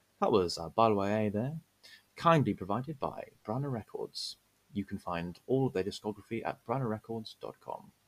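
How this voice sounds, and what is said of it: Polished classical radio announcer voice. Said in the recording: “radio voice ... I was waiting for the "This is Classic FM" noise to come on after that.”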